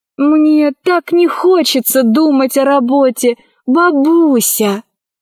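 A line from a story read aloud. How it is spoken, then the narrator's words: Pleading. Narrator (Russian): взмолилась Кора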